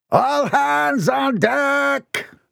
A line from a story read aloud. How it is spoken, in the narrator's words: cried over the crashing of the waves